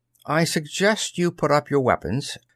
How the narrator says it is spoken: Toller said quietly

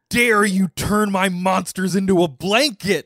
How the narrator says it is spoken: He yells

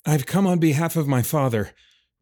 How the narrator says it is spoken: Roman's words came out in short gasps

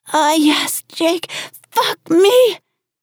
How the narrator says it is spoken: she wailed

